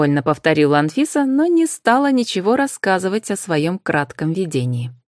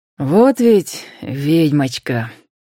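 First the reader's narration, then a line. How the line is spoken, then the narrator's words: Soft. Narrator (Russian): произнес мягко Роман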